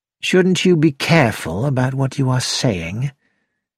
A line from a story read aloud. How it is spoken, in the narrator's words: George said quietly